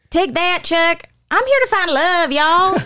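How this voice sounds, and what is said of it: Put-on Texas accent, cowboy Snooki. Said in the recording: “She knows how to do a Texas accent so good. ... You can do it pretty well. ... a cowboy Snooki.”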